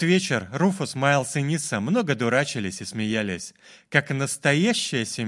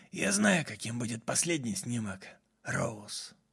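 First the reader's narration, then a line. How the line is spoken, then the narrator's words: Old man muttering whisper. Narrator (Russian): Прошептал старик себе под нос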